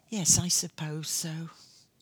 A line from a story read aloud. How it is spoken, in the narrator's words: I answered feebly